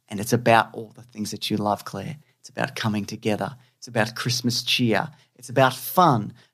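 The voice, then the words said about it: Australian accent. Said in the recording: “it's my Australian accent”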